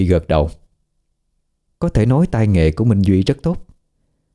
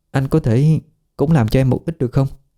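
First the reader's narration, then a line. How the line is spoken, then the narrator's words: Hesitant stammering. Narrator (Vietnamese): Trang ngập ngừng, ấp úng nói với Duy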